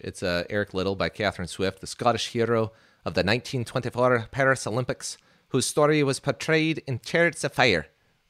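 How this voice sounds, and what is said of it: Put-on accent. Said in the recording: “That's my best, Chris, okay? ... you make fun of my accents all the time, so I'm just doing that for you.”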